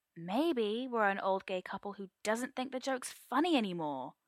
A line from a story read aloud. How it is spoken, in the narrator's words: Arthur snaps